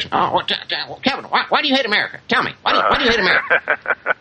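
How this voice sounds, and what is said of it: Imitates another person's voice. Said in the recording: “my Sean Hannity impression”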